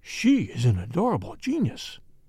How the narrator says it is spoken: he murmured

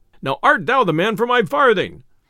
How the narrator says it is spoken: cried the messenger

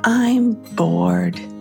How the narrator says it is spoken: Riley sighed dramatically and once more stated

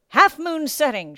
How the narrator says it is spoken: called out

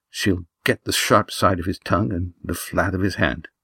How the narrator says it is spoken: said Judith softly

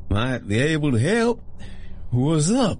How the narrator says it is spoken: The man's speech was slurring, most likely from a solid dose of his medicine, or lack thereof

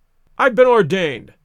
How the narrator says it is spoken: cried the old rascal

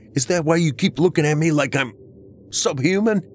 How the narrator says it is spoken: I shouted at her

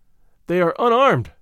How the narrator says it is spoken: I heard him shout

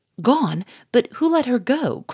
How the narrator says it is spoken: cried Gouchard

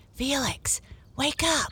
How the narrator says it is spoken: I whispered

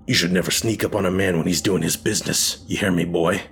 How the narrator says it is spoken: he snarled, the veins in his face still throbbing angrily from exertion

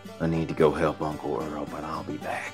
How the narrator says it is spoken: he whispered

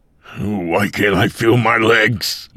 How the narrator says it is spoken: Mike again cried out

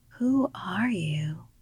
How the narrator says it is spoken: she whispered

